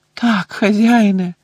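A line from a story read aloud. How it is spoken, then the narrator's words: Groaned. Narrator (Ukrainian): простогнав Червохвіст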